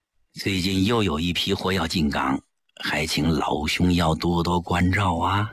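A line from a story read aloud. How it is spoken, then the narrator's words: Deliberately lowered voice. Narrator (Chinese): 齐长鹏故意压低声音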